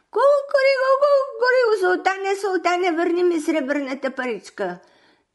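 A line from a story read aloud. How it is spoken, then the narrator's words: Screeching even louder. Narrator (Bulgarian): още по-високо крещи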